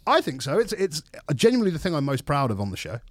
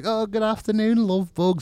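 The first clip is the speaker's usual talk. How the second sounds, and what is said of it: Friendly northern English presenter voice. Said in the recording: “friendly northern presenter man on a TV show ... friendly northern narrator guy”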